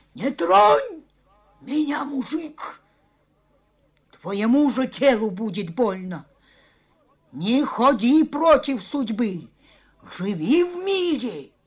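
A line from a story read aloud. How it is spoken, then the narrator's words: Wild cackling scream. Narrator (Russian): захохотала, как ночной филин, и диким голосом закричала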